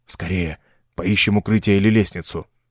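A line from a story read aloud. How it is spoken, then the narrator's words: Whispered. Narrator (Russian): прошептал Ровертон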